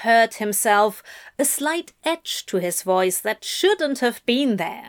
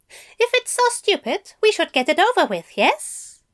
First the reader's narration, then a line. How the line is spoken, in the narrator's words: he said brightly